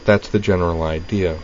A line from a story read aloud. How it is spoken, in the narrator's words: said Dorothy blandly